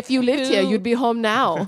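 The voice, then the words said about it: Put-on German accent. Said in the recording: “why does the Windmere also have a German accent?”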